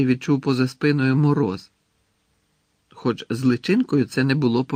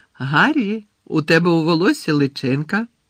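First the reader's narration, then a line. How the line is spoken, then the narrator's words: Cheerful. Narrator (Ukrainian): весело повідомила Джинні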